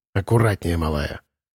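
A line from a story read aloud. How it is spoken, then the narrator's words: Gruff mutter. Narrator (Russian): Буркнул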